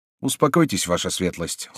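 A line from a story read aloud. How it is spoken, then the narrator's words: Calm. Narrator (Russian): спокойно ответил Дармонталь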